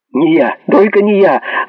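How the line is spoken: Terrified squeal, chattering teeth. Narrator (Russian): взвизгнул, стуча зубами Пен

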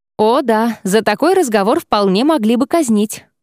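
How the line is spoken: Wry snort. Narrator (Russian): хмыкнул Ксандр

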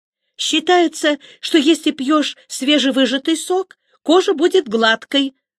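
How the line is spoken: Excited blurt. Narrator (Russian): радостно выпалила Эрико

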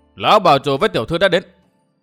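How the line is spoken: Raised voice. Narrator (Vietnamese): có người cao giọng nói

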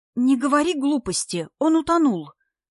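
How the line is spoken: Uncertain objection. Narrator (Russian): возразила Ева неуверенно

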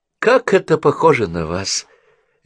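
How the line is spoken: Sighing. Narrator (Russian): Эдвард вздохнул

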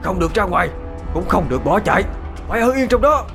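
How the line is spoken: Shout. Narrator (Vietnamese): thầy đã quát lên

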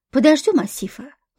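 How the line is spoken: Sigh. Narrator (Russian): вздохнул Борис

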